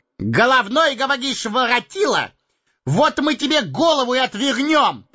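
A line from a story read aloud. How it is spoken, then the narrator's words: Menacing shout. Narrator (Russian): Грозно прокричал Пипин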